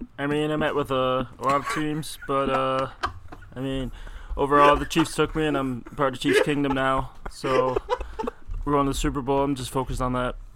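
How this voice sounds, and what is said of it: Impression of Patrick Mahomes. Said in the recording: “That is such a good impression. ... You just missed Patrick Mahomes. ... That sounds just like him. That is incredible.”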